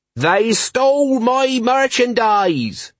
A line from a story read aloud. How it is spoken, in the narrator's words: shouted a speaker